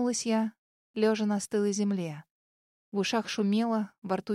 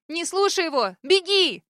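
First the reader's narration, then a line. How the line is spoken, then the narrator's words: Shout. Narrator (Russian): Снова крикнула я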